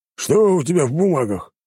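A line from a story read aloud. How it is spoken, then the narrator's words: Growl. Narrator (Russian): рыкнул он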